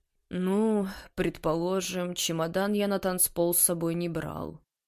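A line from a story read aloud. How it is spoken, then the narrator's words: Muttering. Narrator (Russian): пробормотал Тарас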